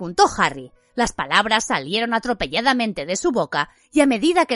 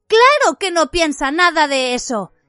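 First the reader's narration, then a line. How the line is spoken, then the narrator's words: Agitated exclamation. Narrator (Spanish): exclamó Hermión agitada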